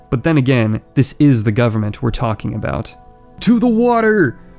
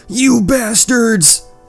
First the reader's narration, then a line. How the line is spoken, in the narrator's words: He shouts to the escaping stoners